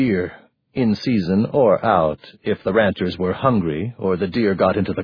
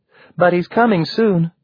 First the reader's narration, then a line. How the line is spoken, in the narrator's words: Alice piped